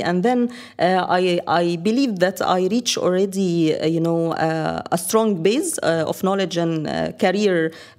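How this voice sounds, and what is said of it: Middle Eastern accent. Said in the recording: “by your accent that you're not from around here ... I came from the Middle East”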